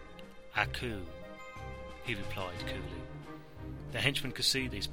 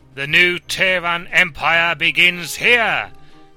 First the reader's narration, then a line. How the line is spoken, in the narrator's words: he shouted over the angry roar